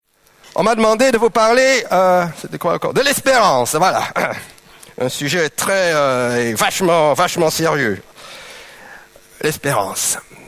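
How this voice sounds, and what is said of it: Slight Flemish accent in French. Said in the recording (French): “j'ai un petit accent, hein. C'est pas un accent, germanique, germanophone ... Je suis néerlandophone ... les flamands belges”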